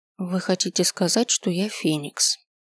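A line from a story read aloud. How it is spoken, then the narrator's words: Quiet, drowned by noise. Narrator (Russian): проговорил я тихо, и мой голос утонул в шуме зала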